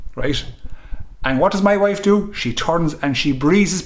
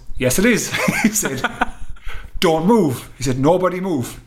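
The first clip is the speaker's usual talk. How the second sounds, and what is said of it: Thick African accent. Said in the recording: “in the thickest African accent”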